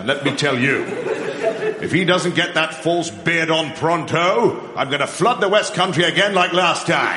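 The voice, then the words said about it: British accent. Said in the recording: “I didn't know God had a British accent.”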